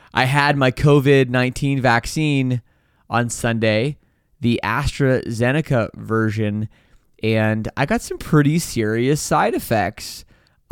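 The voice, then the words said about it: Unwell, under-the-weather voice. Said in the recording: “Maybe you can hear it in my voice. I've been a little under the weather.”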